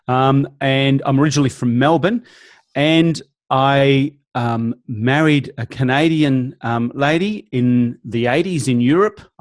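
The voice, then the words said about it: Australian accent. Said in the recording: “I'm originally from Australia, obviously, as you can tell by my accent.”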